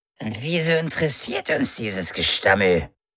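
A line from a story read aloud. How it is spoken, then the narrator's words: Croaked. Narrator (German): krächzte Orwen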